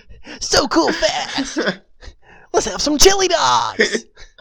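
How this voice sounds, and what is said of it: Sonic the Hedgehog cartoon voice. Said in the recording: “voice sounded like your Sonic impression.”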